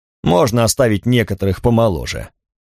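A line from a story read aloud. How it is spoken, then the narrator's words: Grumbled. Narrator (Russian): проворчал Гутрум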